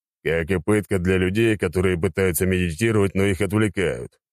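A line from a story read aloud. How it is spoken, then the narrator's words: Grumbled. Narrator (Russian): проворчал я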